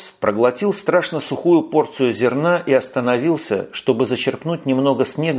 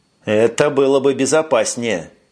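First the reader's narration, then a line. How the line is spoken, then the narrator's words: Grumbled. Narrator (Russian): пробурчал Макнейл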